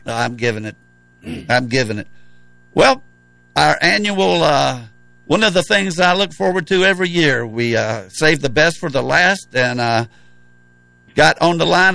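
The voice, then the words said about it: Worn-out, strained voice. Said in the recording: “My voice is just about going to make it to the end of the season”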